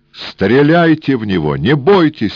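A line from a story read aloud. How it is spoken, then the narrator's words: Desperate shout. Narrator (Russian): отчаянно крикнул Эраст Петрович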